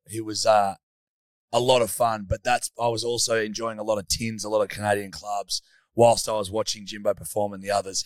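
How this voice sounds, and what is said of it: Hoarse, weak voice. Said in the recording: “my voice is a little less than here today ... we've started the podcast with no fucking voice”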